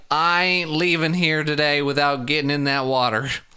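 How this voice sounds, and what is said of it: Appalachian-accented impression of a character. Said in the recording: “It's a good impression ... It wasn't really. I don't have like the low Tom voice ... It's not a southern twang ... It's Appalachia.”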